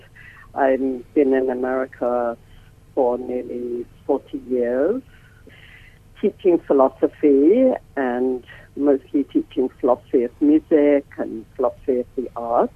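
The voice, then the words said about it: English accent. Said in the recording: “As you can hear, I have an English accent.”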